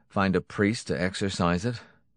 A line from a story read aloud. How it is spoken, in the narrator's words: Jackson snorted